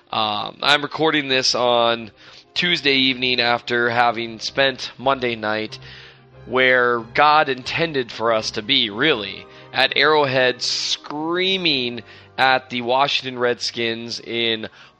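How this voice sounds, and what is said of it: Hoarse, worn-out voice. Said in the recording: “You can hear it in my voice. I am shot ... having a completely weird voice today”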